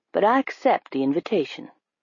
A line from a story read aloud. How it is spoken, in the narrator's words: Carl said calmly